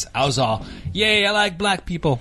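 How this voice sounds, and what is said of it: Put-on accent. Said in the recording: “the accent? ... I have a man of many voices.”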